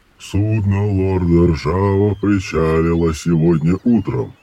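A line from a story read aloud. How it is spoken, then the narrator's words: Clipped golem voice. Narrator (Russian): отчеканил голем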